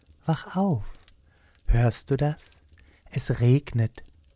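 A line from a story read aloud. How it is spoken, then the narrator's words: Whisper. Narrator (German): flüsterte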